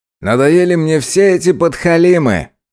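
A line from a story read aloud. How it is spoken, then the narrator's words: Loud. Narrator (Russian): громко сказал он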